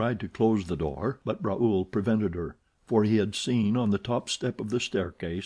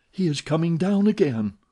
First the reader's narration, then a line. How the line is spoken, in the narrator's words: Suddenly she exclaimed